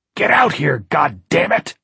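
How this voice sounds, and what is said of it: Hoarse, petulant roaring voice. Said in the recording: “The hoarse, petulant voice roared from above them.”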